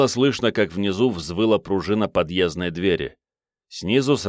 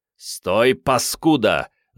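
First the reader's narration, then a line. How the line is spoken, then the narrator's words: Growled. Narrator (Russian): зарычал Керст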